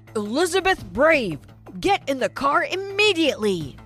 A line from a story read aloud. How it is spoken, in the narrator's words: shouted